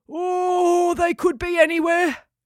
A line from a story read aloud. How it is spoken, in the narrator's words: yawned Steve, waking up